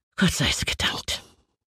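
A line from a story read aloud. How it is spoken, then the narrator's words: Breathy whisper, father. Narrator (German): hauchte mein Vater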